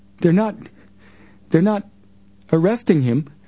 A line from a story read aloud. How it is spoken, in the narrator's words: cried Paula